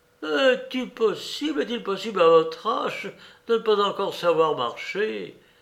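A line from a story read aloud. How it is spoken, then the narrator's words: Angry exclamation. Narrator (French): s'écria-t-elle avec colère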